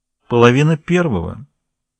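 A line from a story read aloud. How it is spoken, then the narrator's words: Cold. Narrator (Russian): ответил холодно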